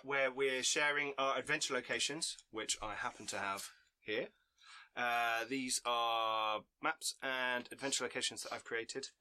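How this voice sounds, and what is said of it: Voice affected by a cold. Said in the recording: “I have a bit of a cold”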